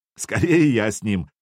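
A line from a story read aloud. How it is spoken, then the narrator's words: Laughing. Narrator (Russian): засмеялся Сергей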